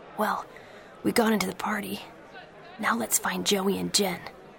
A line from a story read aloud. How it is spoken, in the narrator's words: Pacey whispered to him